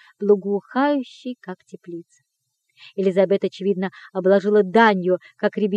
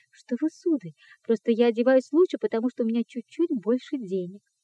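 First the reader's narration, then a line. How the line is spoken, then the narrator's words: Embarrassed stammering. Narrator (Russian): Она густо покраснела и пролепетала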